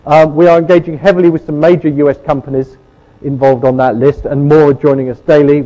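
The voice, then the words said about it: British accent. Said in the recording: “You've probably spotted the British accent”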